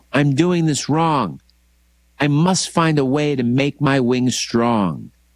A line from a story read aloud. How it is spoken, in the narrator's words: cried the sparrow